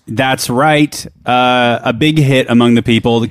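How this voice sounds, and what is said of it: Put-on mixed Southern US accent. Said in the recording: “I'm using this accent on purpose... it always, for some reason, reminds me of a Kentucky accent... It's like five different Southern accents mixed together”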